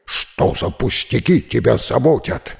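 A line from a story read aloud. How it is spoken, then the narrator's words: Dog's barking snap. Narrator (Russian): рявкнула собака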